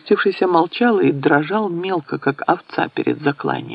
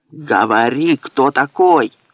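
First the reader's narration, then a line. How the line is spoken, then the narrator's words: Growl. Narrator (Russian): зарычал Свинцов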